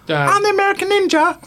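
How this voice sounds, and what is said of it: Squeaky high-pitched character voice. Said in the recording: “Speak squeaky high voice.”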